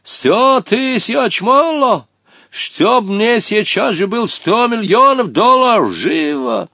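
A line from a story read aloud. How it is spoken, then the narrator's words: Heated shout. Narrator (Russian): запальчиво крикнул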